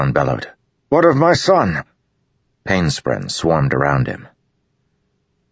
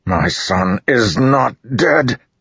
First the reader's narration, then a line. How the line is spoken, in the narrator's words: Rishon growled